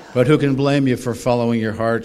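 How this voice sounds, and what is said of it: Slight Irish brogue. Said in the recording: “she quacked, with a bit of a brogue.”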